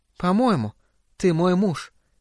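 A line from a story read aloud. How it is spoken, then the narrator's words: Quiet. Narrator (Russian): тихо сказала она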